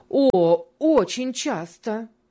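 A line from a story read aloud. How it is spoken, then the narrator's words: Fervent exclamation. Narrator (Russian): с жаром воскликнула первая дама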